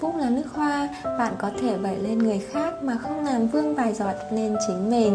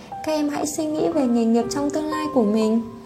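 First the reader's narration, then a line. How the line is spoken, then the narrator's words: Woman, smiling. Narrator (Vietnamese): cô vừa nói vừa mỉm cười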